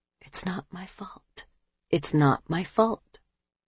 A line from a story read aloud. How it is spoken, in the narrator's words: she would mentally whisper